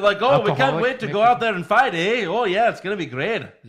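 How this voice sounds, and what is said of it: Bad put-on Canadian accent, sounds Irish. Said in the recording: “Kind of sounded Irish. ... I never said I did a great Canadian accent. ... how bad my Canadian accent was”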